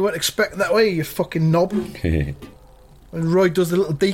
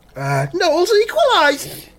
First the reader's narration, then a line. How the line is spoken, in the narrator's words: shouts another one